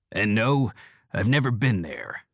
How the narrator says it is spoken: Seattle growls

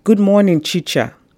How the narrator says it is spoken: shouted his greeting

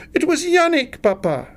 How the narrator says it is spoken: cried

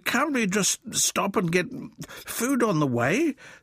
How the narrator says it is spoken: spluttered Wilfred

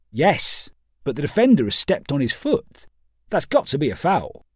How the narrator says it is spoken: responded Pawson sharply

